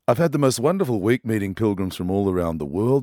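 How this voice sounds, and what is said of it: Tired, worn singer's voice. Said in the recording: “I'd sung something like 150 songs in 3 days. So my voice is a little tired”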